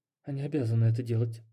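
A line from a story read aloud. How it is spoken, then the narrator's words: Barely audible grumble. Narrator (Russian): пробурчала она еле слышно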